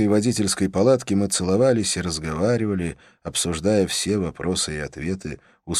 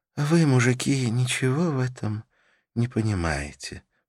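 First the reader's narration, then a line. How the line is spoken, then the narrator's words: Sleepy voice. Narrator (Russian): произнесла Карла сонным голосом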